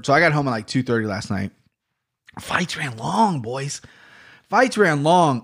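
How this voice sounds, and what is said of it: Tired, low-energy voice. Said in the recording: “hear the energy in my voice just not being there”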